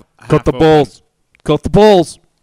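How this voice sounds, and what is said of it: Sylvester Stallone impression. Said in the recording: “do the accent... that's pretty good Stallone”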